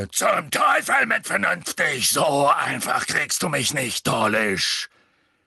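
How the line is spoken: Roaring. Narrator (German): Hagrid brüllte

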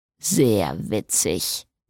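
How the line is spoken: Grumbled. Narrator (German): brummte Jason

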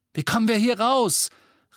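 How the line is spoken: Calling over shouting. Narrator (German): rief Ron durch das ganze Geschrei

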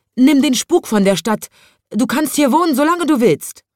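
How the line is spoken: Called out. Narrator (German): rief

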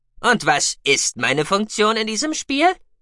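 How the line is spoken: Mocking question. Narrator (German): fragte Cookie spöttisch

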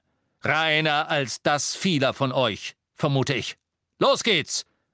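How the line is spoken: Booming voice. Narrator (German): sagte er mit donnernder Stimme zu den Muckelstämmigen

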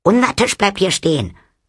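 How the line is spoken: Sharp. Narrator (German): sagte Nanny scharf

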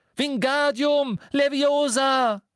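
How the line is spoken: Desperate cry. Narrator (German): Verzweifelt rief

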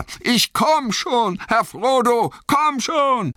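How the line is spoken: Calling out. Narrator (German): rief Sam

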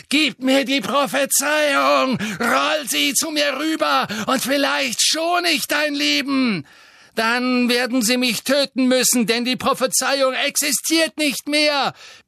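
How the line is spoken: Roar. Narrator (German): brüllte Harry

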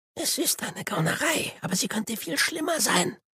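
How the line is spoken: Whispered. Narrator (German): flüsterte er

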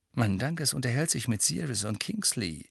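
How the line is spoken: Murmured. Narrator (German): murmelte Fred

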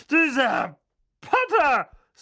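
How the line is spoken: Loud. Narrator (German): sagte Tante Magda laut

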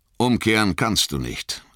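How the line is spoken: Sharp. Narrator (German): sagte Haldir scharf

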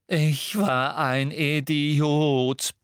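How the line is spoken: Very loud roar. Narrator (German): brüllte Percy so laut

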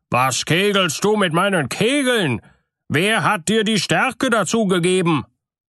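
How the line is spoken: Called out. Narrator (German): rief er

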